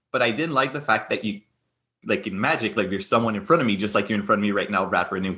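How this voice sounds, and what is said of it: French Canadian accent. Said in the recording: “as most people can hear right now, I have a French accent, I'm a Francophone”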